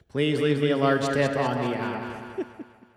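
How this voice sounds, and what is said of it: Echoey robot voice. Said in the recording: “my echoey robot voice”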